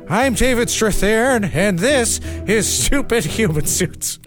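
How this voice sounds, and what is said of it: David Strathairn impression. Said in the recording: “does a David Strathairn impression ... your David Strathairn impression”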